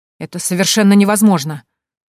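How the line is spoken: Stunned exclamation. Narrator (Russian): воскликнул Толик, ошарашенно

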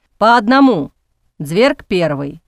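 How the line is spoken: Stern. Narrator (Russian): строго сказал

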